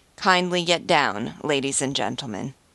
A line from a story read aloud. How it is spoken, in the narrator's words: In Alsatian French, saying stiffly